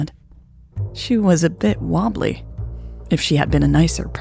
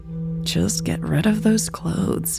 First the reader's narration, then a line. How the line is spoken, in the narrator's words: Turner mumbled